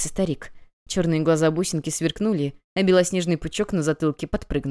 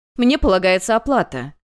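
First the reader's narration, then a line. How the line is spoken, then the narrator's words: Shouting. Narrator (Russian): кричала одна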